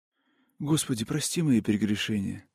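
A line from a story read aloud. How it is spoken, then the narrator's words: Whisper. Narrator (Russian): прошептала фигурка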